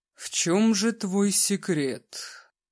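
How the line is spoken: Drawn-out voice. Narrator (Russian): протянул в тишину кабинета Григорий

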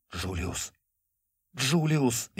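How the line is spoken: Frightened bleat. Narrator (Russian): испуганно проблеял он

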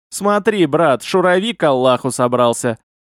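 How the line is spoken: Laughing. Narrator (Russian): засмеялся Хамид

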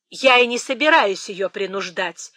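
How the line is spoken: Sharp reply. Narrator (Russian): резко отвечала миссис Норрис

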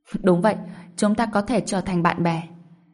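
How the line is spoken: Laughing. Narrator (Vietnamese): Đoàn Long bật cười

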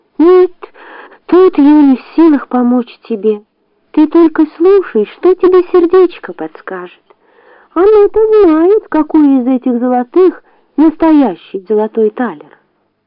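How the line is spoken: Sad. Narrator (Russian): человечек грустно ответил ей

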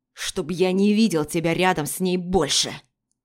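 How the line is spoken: Growl into ear. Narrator (Russian): рыкнул ему в ухо

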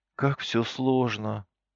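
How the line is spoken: Sighing. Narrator (Russian): вздохнула Галя

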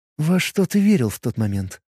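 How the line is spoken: Surprisingly calm question. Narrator (Russian): спросила так спокойно, что удивила сама себя

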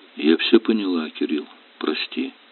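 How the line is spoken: Suddenly calm. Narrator (Russian): вдруг спокойно сказала

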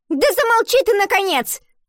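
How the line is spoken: Shouting classmate. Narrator (Russian): выкрикнула одноклассница

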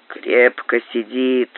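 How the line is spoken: Grumbled, wincing. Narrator (Russian): проворчал Боб, поморщась

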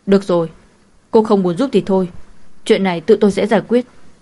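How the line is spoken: Angry shout. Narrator (Vietnamese): Cố Vĩ Thành cũng lười giả bộ, tức giận quát lên

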